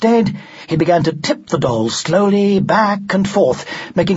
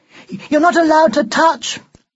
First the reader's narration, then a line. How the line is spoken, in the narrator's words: cried some of the girls